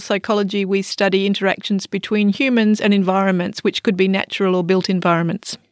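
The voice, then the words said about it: Australian English accent. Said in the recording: “I'm an Australian, obviously. You can tell from my accent.”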